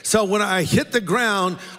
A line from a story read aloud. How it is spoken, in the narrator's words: I called out to Kathy